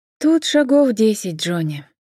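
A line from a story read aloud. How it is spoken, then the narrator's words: Sighing. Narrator (Russian): вздохнула Джен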